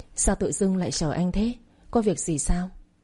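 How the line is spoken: Soft laugh. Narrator (Vietnamese): khẽ cười

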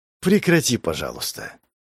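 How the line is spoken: Interrupting. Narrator (Russian): Перебила

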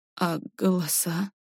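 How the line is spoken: Forced out. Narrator (Russian): выдавила Варя

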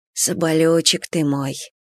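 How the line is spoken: Tender whisper. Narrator (Russian): нежно шепнул Степан

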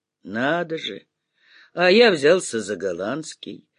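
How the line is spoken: Sudden laughter. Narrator (Russian): вдруг засмеялся Головеров

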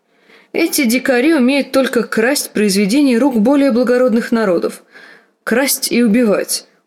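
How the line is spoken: Loud laughter. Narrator (Russian): расхохотался

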